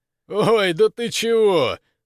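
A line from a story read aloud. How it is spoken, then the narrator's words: Laughing question. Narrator (Russian): сквозь смех вопросил Жила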